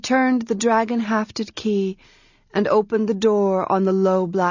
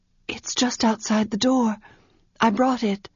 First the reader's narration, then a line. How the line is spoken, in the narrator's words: she replied, still whispering